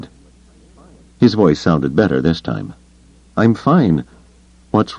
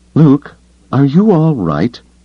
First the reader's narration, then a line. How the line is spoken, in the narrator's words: Leia asked anxiously